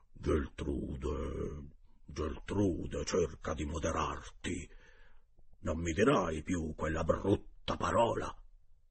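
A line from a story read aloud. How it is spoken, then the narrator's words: Gentle speech. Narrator (Italian): Poi il direttore dolcemente disse alla moglie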